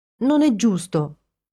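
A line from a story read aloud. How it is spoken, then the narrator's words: Proclaiming, then whimpering. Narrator (Italian): proclamò Ginny e incominciò a piagnucolare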